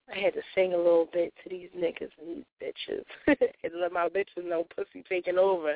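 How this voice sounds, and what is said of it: Slightly raspy voice. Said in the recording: “my voice is a little raspy, extra sexy tonight”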